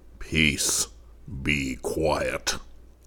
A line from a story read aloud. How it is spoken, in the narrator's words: said the eagle sternly